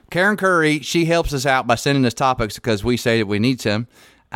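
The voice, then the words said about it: Put-on West Virginia accent. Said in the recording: “I'm going to do this in my West Virginia accent ... I love it when you do your West Virginia accent.”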